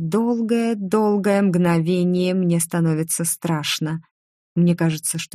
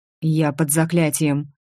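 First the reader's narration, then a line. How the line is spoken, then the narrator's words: Quick speech. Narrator (Russian): быстро говорит он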